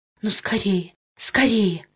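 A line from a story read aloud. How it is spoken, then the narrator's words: Impatient whisper. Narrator (Russian): нетерпеливо шептала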